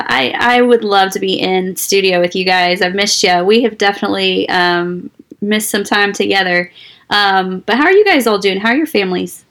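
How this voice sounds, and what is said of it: Raspy, hoarse voice. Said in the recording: “I just have lingering rasp to go ... along with our smooth radio ... with the smooth radio voice.”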